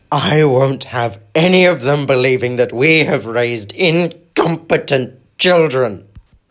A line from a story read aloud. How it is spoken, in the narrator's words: Vernon had bellowed